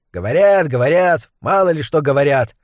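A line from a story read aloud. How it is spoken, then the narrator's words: Grumbling. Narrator (Russian): пробурчала другая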